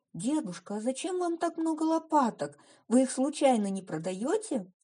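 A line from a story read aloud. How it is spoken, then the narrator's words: Cheerful question. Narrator (Russian): весело спросила она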